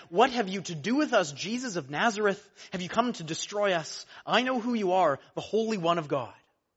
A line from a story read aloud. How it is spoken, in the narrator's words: he cried out